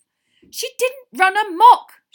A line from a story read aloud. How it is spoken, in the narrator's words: shouted Hermione